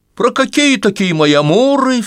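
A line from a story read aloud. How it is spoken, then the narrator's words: Flustered cry. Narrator (Russian): вскрикнула, непритворно вспыхнув, Катерина Львовна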